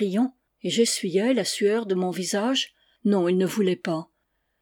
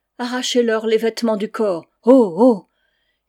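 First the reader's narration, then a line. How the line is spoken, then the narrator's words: Howling crowd. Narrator (French): Ils hurlaient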